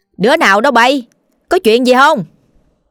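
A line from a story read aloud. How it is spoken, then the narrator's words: Old woman asking loudly. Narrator (Vietnamese): bà liền lớn tiếng hỏi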